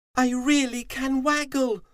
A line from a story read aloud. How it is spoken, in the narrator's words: Fuzzy cried